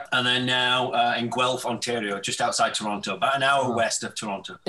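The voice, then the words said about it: Strong English accent. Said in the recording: “with a very staunch English accent”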